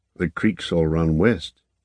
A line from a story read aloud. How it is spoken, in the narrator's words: he said in a low voice